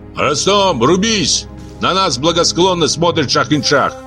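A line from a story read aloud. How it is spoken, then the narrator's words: Shouting. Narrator (Russian): крикнул Саакадзе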